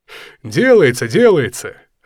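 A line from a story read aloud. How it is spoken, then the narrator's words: Laughing. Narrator (Russian): рассмеялся светловолосый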